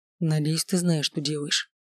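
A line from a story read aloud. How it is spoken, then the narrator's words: Whisper. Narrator (Russian): шепнул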